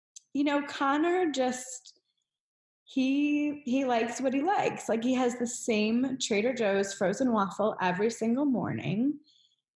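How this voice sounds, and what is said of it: Choked-up, emotional voice. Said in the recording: “I always get choked up every time I ask a question on here.”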